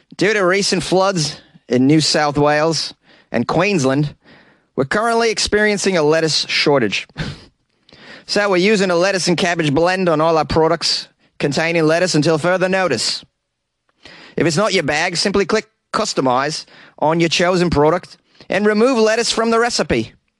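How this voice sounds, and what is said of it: Terrible put-on Australian accent. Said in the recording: “let me try this terrible Australian accent. ... How was that? Is that pretty good?”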